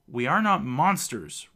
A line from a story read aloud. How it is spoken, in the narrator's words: Reuben shouts back